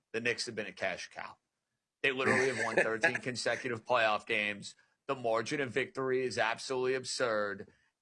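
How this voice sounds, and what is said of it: New York accent. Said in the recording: “You know I'm a New York guy. You can tell by the dialect I'm a New York guy.”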